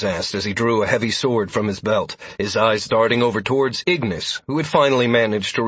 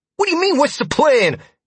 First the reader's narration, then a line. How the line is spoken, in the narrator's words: Ignis replied, his voice tinged with panic